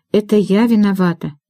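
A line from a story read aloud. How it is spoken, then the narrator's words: Sighing. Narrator (Russian): вздохнула Эвели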